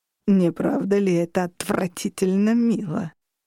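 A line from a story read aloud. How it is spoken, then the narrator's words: Mocking purr. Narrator (Russian): Издевательское мурлыканье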